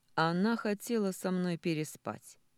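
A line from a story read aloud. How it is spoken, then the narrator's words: Loud, from behind. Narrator (Russian): громко звучит за моей спиной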